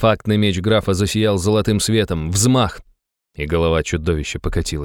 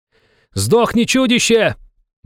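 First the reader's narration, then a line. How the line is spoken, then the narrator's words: Shouted. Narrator (Russian): выкрикнул Иван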